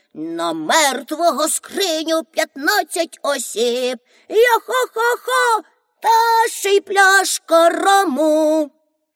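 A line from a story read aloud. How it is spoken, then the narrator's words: Hoarse singing. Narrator (Ukrainian): Пеппі заспівала хрипким голосом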